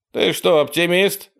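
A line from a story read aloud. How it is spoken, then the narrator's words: Laughing. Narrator (Russian): рассмеялся Чаки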